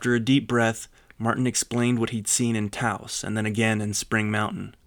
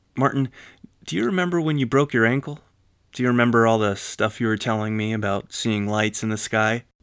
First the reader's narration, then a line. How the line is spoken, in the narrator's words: Martin sighed